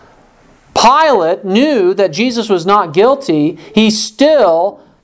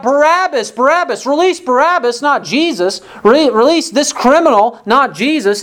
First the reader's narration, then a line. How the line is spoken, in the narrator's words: they called out